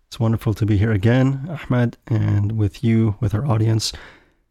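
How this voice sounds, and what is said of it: Voice slightly off with a cold. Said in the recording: “I'm recovering from a bit of a cold, so I apologize if my voice is a little bit off”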